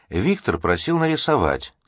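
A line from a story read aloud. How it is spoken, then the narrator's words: Calm explanation. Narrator (Russian): спокойно пояснил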